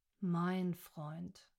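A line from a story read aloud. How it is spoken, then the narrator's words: Sighing correction. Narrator (German): korrigierte Rick, seufzend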